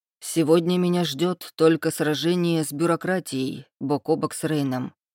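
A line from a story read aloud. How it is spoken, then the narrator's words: Gloomy. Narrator (Russian): мрачно проговорил Ихлас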